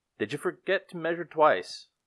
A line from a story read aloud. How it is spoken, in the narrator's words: a voice called out from behind